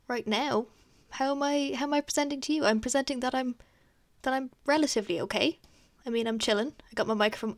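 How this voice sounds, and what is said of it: Slightly breathless, fast nervous speech. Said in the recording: “I'm a bit out of breath. ... I'm talking quite quick. I do that when I'm a bit nervous.”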